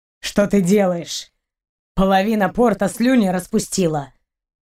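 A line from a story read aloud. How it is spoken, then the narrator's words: Captain grumbling. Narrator (Russian): проворчал капитан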